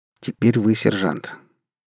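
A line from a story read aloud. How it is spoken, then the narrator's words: Quiet. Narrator (Russian): тихо сказал веганин Краб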